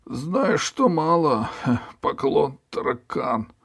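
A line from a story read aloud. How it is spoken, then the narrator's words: Sad ferryman. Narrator (Russian): печально ответил перевозчик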